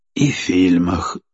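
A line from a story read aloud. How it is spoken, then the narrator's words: Sigh. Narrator (Russian): вздохнул Андрей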